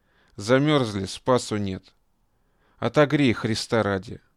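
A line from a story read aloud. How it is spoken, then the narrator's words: Strained voice into loud coughing. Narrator (Russian): При последних словах он громко, надрывая горло, закашлялся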